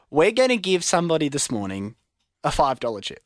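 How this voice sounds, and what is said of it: Speaks very slowly. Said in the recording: “say it slowly.”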